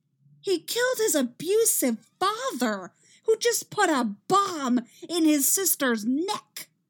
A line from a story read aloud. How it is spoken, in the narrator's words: Iris shouts